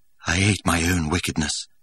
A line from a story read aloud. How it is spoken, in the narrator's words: he added in a lower tone